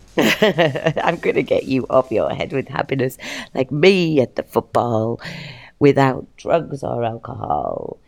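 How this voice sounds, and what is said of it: Slightly hoarse voice. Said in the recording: “A little bit hoarse from the football today”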